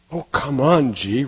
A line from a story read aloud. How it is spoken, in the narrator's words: Richie says with a sigh